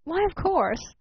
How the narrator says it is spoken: called Edgerton a bit impatiently from the window

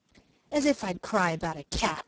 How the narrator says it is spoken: scoffed Peter

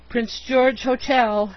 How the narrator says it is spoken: he groaned at intervals

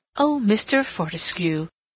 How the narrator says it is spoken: exclaimed Mrs

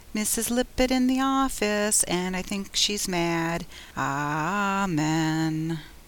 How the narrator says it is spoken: Tommy piously intoned, but his accent was not entirely malicious

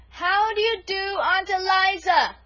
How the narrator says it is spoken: she repeated at the top of her voice

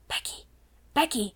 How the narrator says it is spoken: she whispered as loudly as she dared

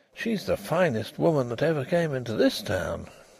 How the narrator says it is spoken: he murmured

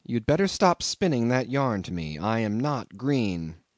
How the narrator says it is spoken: I said quite calmly

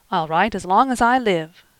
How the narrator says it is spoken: cried the boy impetuously

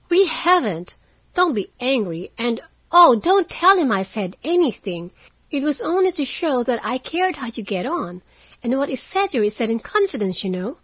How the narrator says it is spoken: cried Meg, much alarmed at the thought of what might follow from her careless speech

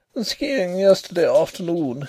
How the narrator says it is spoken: said he with a little laugh

